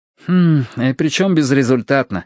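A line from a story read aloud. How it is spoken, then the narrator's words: Sighing. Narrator (Russian): вздохнул Ти-Джей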